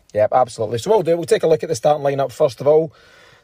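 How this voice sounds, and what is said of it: Hoarse voice. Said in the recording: “I'm a bit hoarse. I've been shouting intermittently”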